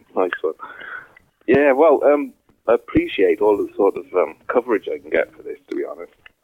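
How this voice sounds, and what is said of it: Southern English accent. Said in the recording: “Did I detect a southern accent?”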